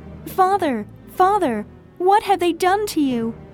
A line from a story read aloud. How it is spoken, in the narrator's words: cried out